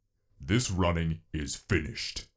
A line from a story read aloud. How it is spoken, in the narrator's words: he growled